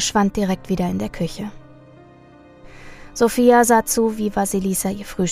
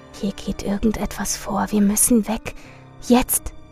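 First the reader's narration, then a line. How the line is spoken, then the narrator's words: Urgent whisper. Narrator (German): Sophia ... flüsterte ihr zu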